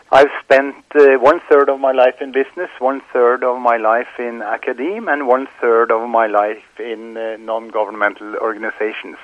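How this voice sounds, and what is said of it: Norwegian accent. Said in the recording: “obviously from Norway, as you can hear from my wonderful accent.”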